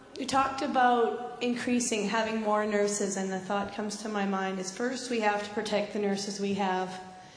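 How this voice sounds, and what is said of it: Slightly squeaky voice. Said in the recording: “with a bit of a squeaky voice.”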